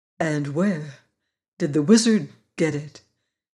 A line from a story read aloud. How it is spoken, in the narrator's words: she continued gravely